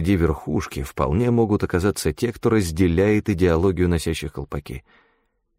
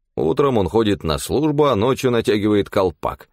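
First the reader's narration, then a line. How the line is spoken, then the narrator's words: Snorting remark. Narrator (Russian): хмыкнул Амнис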